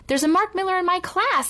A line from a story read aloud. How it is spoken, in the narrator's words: exclaimed Allison